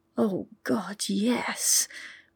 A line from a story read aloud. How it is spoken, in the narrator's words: Pippa whispered, shivering